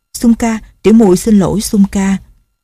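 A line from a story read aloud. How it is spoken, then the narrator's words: Soft laugh. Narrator (Vietnamese): Cô cười khẽ rồi nói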